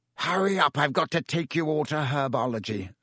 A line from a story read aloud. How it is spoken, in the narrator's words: barked Snape over the class's heads